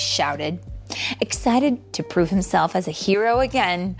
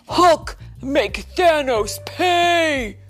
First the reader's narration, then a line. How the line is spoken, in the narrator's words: he shouted